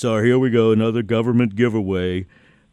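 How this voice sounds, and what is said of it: Mocking imitation of a skeptical voice. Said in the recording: “That's my impersonation of the general population”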